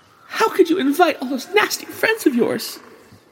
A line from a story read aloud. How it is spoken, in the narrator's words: sobbed